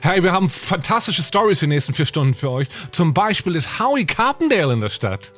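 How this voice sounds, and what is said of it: Upbeat radio host voice, fake accent. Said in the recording (German): “Der Duktus, mit dem die so reden ... mit so einem Fake-Akzent.”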